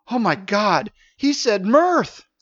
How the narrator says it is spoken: she exclaimed

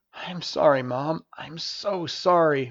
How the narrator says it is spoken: muttered Stavius as he struggled to catch his breath

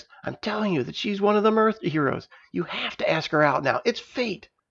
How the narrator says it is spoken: Ethan hissed

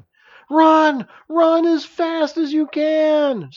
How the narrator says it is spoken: screamed Safe

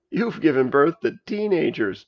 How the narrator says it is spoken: chuckled Tara

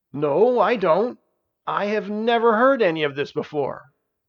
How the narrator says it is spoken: he exclaimed

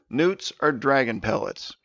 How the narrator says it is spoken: he answered

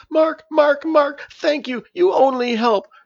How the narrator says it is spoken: she sobbed

